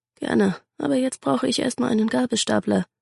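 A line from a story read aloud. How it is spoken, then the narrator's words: Murmuring. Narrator (German): murmelte Sandra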